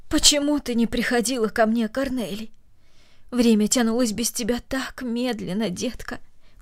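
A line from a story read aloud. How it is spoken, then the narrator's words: Tender. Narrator (Russian): добавила она нежно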